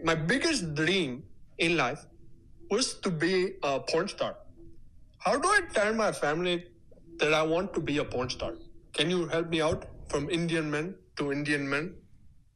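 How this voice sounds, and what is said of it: Indian-accented English. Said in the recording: “from India ... Having a very original accent”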